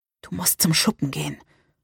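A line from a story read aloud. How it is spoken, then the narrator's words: Whisper. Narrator (German): flüsterte ich Salem zu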